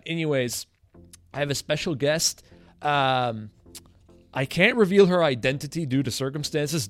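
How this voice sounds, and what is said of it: French-accented English. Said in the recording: “I'm switching my tongue, or should I, should I, say I'm repositioning it, because this is my first podcast right. in English ... even though I'm fluently bilingual. I don't think my accent is too bad.”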